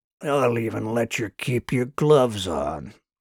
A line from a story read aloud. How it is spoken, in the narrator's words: chuckled the tall soldier